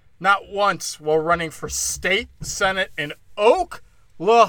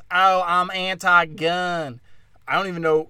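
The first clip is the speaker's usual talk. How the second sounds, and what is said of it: Put-on Southern Alabama accent. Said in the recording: “It's like an Alabama accent.”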